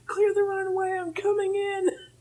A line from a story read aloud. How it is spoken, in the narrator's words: Princess Peach is screaming